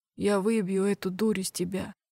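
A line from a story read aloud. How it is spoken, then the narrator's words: Hoarse rasp. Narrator (Russian): прохрипел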